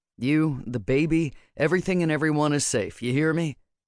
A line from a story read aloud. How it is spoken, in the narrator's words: sighed heavily